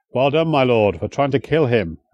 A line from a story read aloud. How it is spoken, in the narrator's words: Edward grunted